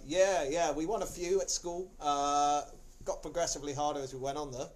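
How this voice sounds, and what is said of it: Poor put-on South African accent. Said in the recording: “This is a worse South African accent.”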